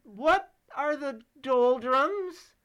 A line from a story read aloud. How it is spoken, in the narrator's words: He cried loudly